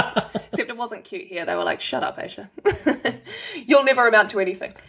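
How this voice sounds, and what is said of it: Usual voice. Nothing is said of it.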